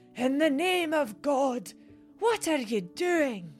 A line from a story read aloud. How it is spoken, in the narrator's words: Horrified, from the depths of her ancient lungs bellowed